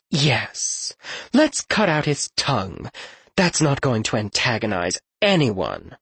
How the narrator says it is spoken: Morella said, her voice dripping with acid

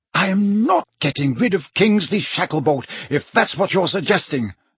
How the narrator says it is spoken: said the Prime Minister hotly

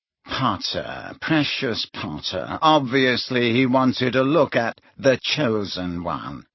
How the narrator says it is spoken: sneered Malfoy

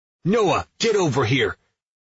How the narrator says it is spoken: Nick yells

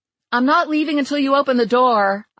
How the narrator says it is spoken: I shouted at Diggory

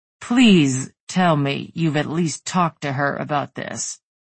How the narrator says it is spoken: Tegan said, words growing growlier by the second

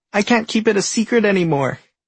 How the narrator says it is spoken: Jomny shouts, alarming everybody

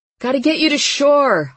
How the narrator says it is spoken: I yelled at him over the noise of the engine

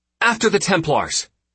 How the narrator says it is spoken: Michelle barked

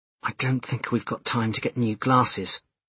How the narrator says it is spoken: he murmured to Jess

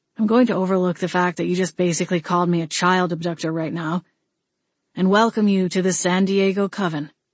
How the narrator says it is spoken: he said, his tone flat

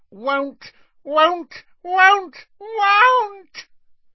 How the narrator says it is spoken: Creature's voice had risen to a scream

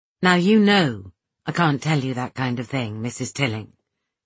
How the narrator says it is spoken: he said calmly

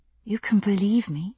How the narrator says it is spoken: I whispered

